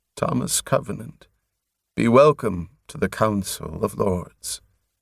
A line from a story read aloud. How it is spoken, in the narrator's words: Prothol said softly